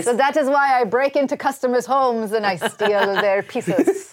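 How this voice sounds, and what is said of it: Swedish accent. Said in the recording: “That's your inventor voice. ... This is ... actual accent. ... this is my actual accent. It is a Swedish accent, but it only comes out occasionally.”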